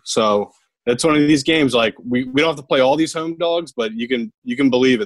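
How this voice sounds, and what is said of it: Philadelphia accent. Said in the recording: “you sounded like so fucking Philly when you just said we don't have to play all these home dogs. Your accent just came out.”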